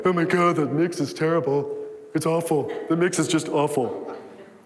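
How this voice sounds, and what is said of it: Mocking audio person character voice. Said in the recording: “should I do the audio person voice?”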